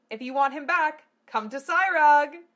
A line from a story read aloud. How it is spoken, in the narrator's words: Fabrizio yelled